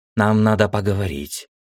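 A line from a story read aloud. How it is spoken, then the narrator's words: Hoarse. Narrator (Russian): хрипло сказала она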